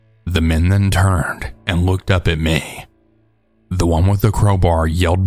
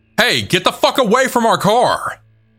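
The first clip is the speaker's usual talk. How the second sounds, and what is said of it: Yelled in a deeper voice. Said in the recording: “yelled in a slightly deeper voice”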